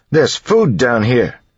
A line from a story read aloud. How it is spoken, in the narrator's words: he yelled